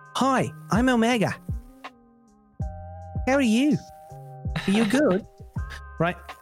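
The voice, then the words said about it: Put-on New Zealand accent, character voice. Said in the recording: “New Zealand accent, which is quite peculiar ... She's so accentuated in her character voice.”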